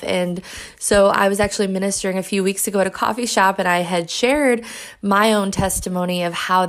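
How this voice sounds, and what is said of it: Strained voice. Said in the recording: “You can probably tell my voice is a little strained”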